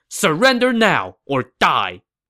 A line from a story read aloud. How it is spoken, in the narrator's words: Gao Ding shouted to Zhu Bao's men